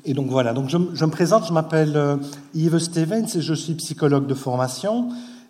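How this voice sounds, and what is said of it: Belgian French accent. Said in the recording (French): “comme vous devez sans doute l'entendre à mon accent, je viens de Belgique”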